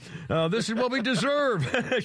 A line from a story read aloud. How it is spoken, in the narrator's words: shouted Christian McCaffrey